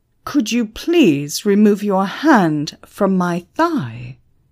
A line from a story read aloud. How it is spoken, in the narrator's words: Emma roared